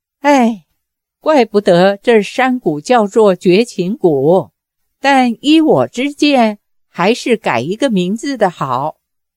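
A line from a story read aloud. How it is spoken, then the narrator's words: Long sigh. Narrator (Chinese): 杨过长叹一声说道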